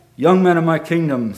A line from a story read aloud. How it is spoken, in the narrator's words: said King Akbar